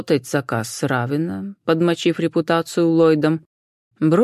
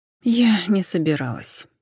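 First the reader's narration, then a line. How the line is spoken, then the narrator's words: Sighing. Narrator (Russian): вздохнула Джен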